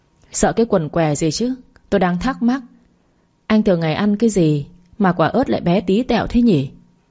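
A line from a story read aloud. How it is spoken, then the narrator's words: Sigh, then sarcastic. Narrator (Vietnamese): Đường Vân thở dài rồi nói giọng mỉa mai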